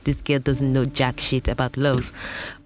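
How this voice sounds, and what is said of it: Brief put-on accent. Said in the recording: “I don't know what accent that was.”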